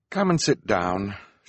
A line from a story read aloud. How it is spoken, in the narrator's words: said gloomily